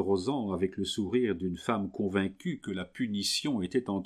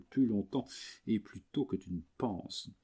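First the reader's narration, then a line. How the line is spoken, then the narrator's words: Murmuring woman. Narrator (French): murmura la créole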